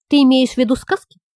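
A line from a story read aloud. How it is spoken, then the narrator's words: Plain. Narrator (Russian): спросил Сашка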